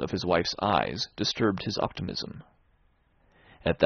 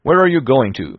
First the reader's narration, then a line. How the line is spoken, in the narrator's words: he called out rather sharply